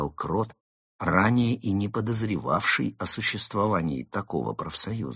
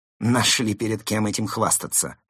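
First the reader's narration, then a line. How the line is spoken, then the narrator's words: Snorted, gang leader. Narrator (Russian): фыркнул главарь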